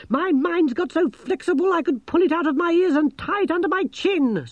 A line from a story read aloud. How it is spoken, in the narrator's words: snapped Gerda